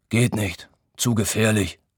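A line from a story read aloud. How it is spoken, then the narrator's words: Grumbling. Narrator (German): brummt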